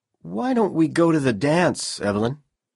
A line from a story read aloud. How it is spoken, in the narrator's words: Powell said nervously